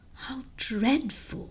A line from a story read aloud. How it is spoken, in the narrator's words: I exclaimed